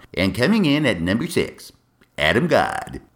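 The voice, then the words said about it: Bad Casey Kasem countdown impression. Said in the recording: “like Casey Kasem doing his countdown ... That's got to be the worst Casey Kasem impression in the world.”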